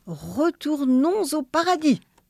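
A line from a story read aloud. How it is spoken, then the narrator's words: Exclaimed. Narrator (French): s'écria le bon Dieu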